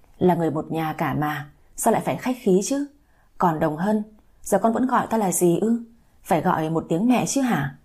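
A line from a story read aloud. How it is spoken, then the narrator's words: Laughing. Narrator (Vietnamese): Bà Lý bật cười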